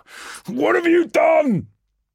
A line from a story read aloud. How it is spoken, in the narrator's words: Darris, somehow breaking through the static long enough to shout